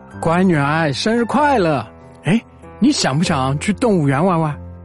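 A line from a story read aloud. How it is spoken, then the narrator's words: Cheerful, smiling. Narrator (Chinese): 爸爸笑着说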